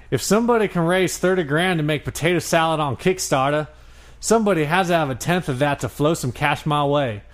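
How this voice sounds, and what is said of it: Put-on Georgia Southern accent. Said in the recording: “I got to change my accent because he's from Georgia.”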